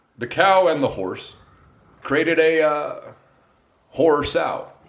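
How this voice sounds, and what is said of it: Barack Obama impression. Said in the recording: “You can do an impression first ... Tell me a sentence I'll say as Obama.”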